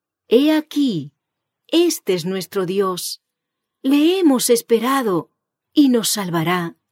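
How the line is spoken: Joyful chorus of voices. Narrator (Spanish): En medio de su terror, las voces de los santos que exclaman en unánime júbilo

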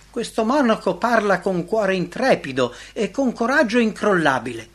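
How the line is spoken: Admiring exclamation. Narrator (Italian): L'imperatore, ammirato, esclamò

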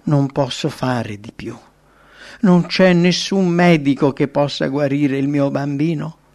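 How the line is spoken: Mother's anguished exclamation. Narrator (Italian): Una mamma al capezzale del figlio ammalato esclama

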